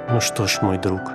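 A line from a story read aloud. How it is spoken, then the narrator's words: Priest's quiet voice. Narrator (Russian): священник тихо молвил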